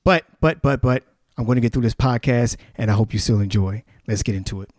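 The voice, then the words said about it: Voice sounds off, unwell. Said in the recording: “you'll notice that my voice is a little bit off. I'm still recovering from pneumonia.”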